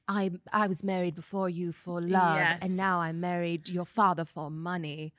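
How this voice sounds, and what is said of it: Bad imitation of another person's voice. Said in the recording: “That was a really bad impression. ... Kate ... Impression.”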